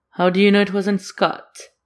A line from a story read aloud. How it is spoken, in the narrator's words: Claude laughs